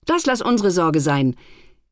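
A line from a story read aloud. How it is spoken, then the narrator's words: Calling out. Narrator (German): rief ein Feiertag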